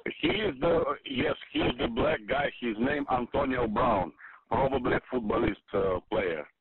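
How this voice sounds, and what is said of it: Foreign accent, Russian or African. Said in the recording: “What accent was that guy? ... It sounded Russian. ... I thought it was an African, ... Nigerian. I thought it might be, like, Cameroon or something. ... He sounded Russian to me.”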